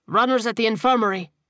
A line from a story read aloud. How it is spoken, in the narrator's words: he barked